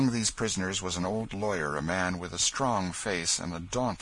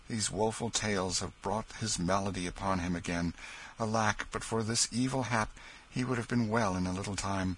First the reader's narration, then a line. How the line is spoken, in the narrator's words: sighed Hendon